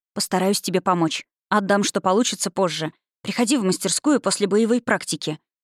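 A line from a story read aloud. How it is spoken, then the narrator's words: Whispered. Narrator (Russian): шепнула Энлею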